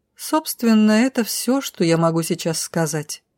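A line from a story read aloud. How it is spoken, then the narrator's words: Summing up. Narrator (Russian): подытожила Зара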